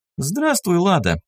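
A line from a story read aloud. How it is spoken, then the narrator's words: Greeting. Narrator (Russian): поздоровалась с ней Лиса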